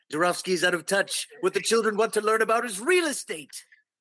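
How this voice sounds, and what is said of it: Montgomery Burns impression. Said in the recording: “Can you do a Montgomery Burns imitation? ... Do Montgomery Burns as the publisher of Crane's”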